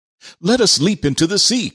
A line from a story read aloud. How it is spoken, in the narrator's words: cried Fritz